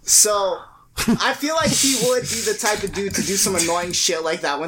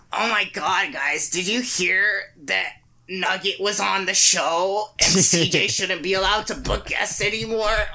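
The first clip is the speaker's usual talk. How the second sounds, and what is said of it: Vegeta impression. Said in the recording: “Is that your best Vegeta impression? ... Made him sound like Waluigi.”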